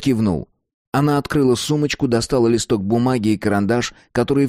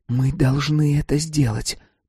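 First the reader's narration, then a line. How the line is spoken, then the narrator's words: Whispered. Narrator (Russian): прошептала она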